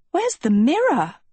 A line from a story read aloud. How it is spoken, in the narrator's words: she gasped